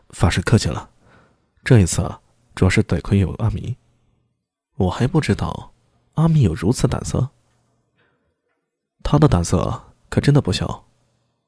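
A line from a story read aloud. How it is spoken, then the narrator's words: Soft, shy. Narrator (Chinese): 狄仁杰罕见的露出一丝羞涩，轻声说道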